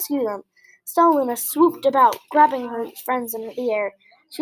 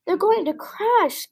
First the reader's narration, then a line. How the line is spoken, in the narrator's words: gasped Stella Luna